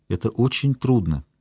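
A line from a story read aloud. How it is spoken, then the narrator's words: Quiet. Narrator (Russian): тихо сказал я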